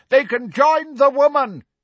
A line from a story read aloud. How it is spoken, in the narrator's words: a dun-coloured centaur shouted